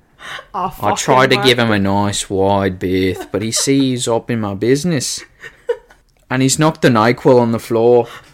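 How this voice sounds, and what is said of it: Poor put-on Australian accent. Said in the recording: “I did not keep up with the Australian accent ... how bad is my accent? ... So bad”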